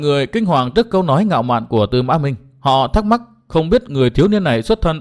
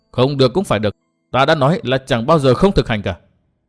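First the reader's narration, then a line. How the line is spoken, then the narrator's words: Harsh, firm voice. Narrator (Vietnamese): Tư Mã Minh gằn giọng nói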